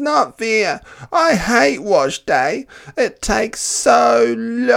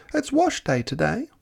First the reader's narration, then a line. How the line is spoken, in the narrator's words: replied Mama sweetly